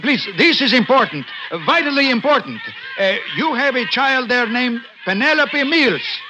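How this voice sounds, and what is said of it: Speaker with a noticeable accent. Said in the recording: “perhaps it is my accent”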